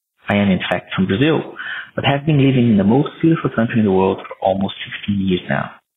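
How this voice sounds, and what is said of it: South American accent, Australian-tinged. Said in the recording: “this is a funny Australian accent ... the South American accent is something that will remain with me”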